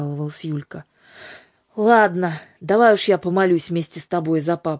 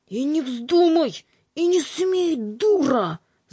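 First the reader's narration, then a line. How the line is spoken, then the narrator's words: Angry hiss. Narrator (Russian): зашипел Михрютка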